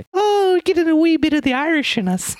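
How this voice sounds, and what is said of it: Put-on Irish accent, Lucky Charms style. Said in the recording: “What's your Irish accent sound like? ... it's like the Lucky Charms character.”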